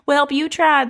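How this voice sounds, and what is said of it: Sweet old grandma voice. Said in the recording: “with that accent. It felt like something like your sweet old grandma would say”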